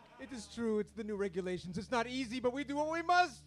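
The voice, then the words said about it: Kazakh accent. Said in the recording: “That is for sure a Kazakhstan accent.”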